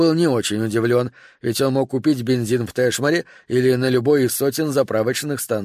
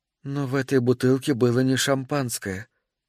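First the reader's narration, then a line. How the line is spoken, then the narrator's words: Quiet. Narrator (Russian): тихо сказала Эми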